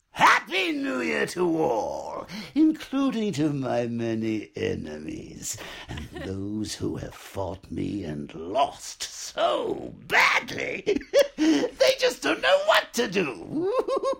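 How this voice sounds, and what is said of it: Joker character voice. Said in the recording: “he does a Joker voice ... he did the Joker voice of Trump's tweets”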